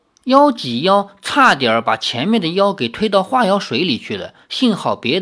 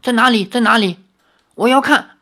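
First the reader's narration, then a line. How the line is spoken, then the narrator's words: Shouting demons. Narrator (Chinese): 一只妖大叫，另一只妖叫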